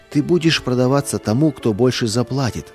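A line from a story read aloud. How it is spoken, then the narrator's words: Plain. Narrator (Russian): сказал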